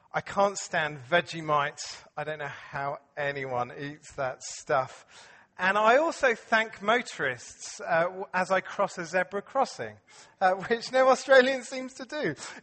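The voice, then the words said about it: English accent. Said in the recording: “I still have a pretty English accent, I think.”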